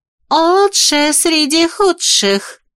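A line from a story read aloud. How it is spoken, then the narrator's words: Finishing with a laugh. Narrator (Russian): закончила за него Мэлори и рассмеялась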